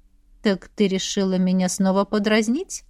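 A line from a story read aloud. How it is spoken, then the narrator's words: Purring man. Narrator (Russian): мурлыкал этот мужчина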